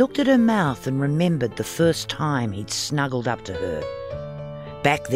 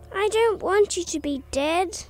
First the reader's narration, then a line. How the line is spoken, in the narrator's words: he whined again